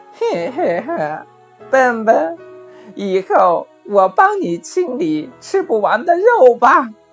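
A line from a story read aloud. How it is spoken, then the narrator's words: Sly snicker. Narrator (Chinese): 狐狸……坏笑地说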